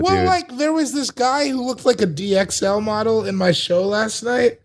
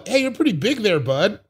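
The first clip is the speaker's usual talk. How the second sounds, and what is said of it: Put-on Canadian accent. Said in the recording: “You just pick up like a weird accent. I've been doing it in Canada. ... What is the Canadian version of that?”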